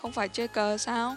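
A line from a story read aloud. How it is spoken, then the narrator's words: Questioning, eyebrow raised. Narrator (Vietnamese): Lãnh Hạ nhướng mày hỏi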